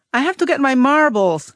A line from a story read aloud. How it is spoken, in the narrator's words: Raymond wailed